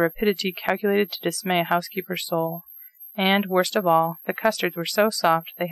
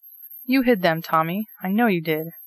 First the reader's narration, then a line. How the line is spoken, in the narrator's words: cried the outraged hostess